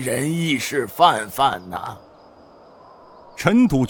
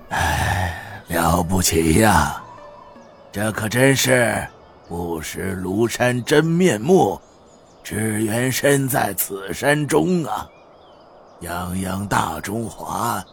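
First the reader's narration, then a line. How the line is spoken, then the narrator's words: Sighing. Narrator (Chinese): 雅叔东国雄叹声道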